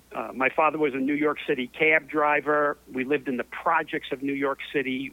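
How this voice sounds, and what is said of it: Mild New York accent. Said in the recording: “Born and raised in New York City, in the Chelsea section of New York. ... Is that where that accent came from? ... This is just a fraction of what the accent was.”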